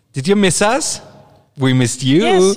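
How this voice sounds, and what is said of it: Imitates another person's voice. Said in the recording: “my Kardashian impersonation”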